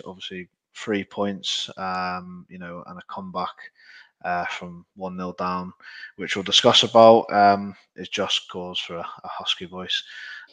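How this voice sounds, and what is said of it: Husky, hoarse voice. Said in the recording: “my voice is a bit husky. But excuse me for the husky voice.”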